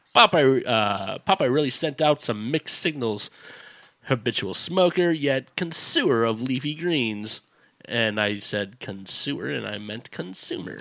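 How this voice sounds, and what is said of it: Chicago accent. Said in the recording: “We understand you have a Chicago accent.”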